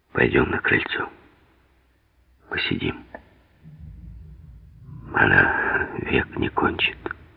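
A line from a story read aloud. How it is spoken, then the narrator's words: Whisper. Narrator (Russian): шепнул Сурков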